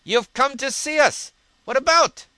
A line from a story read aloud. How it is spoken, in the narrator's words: cried Ilya Petrovich